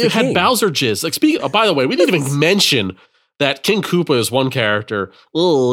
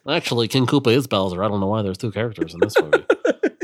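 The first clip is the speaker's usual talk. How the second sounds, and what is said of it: Nerdy put-on voice. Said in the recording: “I like the nerd voice. You got to bust it out more.”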